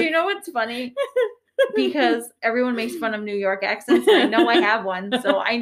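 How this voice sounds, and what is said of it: Usual voice. Nothing is said of it.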